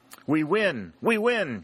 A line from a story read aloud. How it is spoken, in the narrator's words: shouted Pennington, wild with enthusiasm